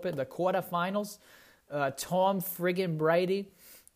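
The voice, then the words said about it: Put-on Boston accent. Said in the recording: “Now I do that Boston accent every now and again”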